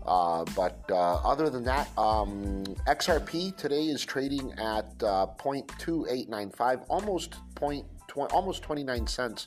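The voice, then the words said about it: Slightly hoarse voice. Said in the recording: “If I sound a little bit hoarse, by the way, or whatever, I have an allergy that's kicked in horribly”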